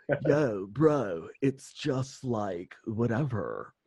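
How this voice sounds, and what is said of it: California bro accent. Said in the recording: “I am in California, so I have to use that voice... Very common accent here.”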